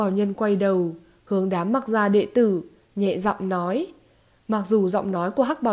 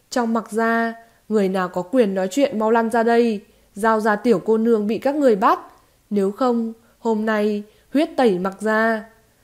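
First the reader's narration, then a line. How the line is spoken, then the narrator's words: Roar. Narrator (Vietnamese): Mặc Thừa gầm giống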